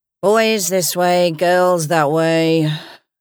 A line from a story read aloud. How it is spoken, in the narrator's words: a pale-faced guard intoned, too bored with the plight of human misery even to look up over his desk